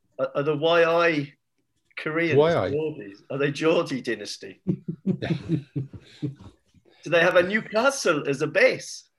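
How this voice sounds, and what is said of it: Mixed Korean and Geordie put-on accent. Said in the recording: “accent mashup that didn't really work on any level at all ... fairly convincing Korean accent”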